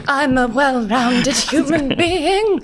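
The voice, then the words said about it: Imitates another person's voice. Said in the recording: “that a Jimmy Savile impression?”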